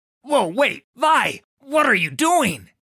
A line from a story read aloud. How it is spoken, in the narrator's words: spluttered as he scrambled to his feet